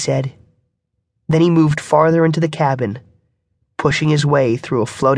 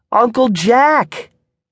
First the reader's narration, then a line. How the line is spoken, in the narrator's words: cried